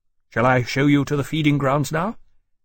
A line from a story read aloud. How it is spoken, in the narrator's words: Granby said stiffly